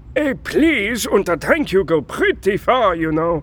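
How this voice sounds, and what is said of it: German accent. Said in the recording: “That accent. ... I just say Germany”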